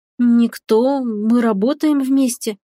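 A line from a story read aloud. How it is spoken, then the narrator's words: Mumbling young woman. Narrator (Russian): промямлила девушка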